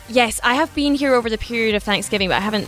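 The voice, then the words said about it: Slight foreign accent. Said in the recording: “You may notice a little bit of an accent. ... A little bit. ... She's from Jersey”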